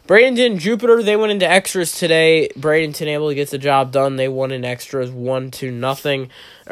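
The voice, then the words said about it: Congested, rough-sounding voice. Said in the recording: “my sinuses are killing me ... my voice is going to be a little bit crazy. Not sounding too good today.”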